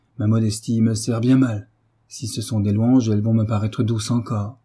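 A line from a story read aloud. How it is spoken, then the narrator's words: Cheerful. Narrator (French): reprit gaiement Frédéric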